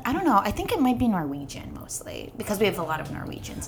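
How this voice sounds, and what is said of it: Minnesota accent. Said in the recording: “you had a Minnesota accent”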